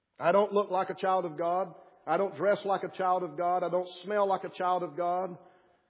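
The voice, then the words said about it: Speaker's own noticeable accent. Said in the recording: “my wonderful accent”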